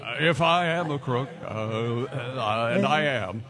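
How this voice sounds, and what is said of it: Richard Nixon impression. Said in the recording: “Is that your best impression, or is that Jimmy Stewart?”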